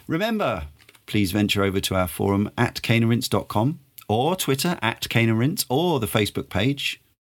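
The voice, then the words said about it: Middle-class southeast English accent. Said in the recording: “semi-middle class Southeast English accent”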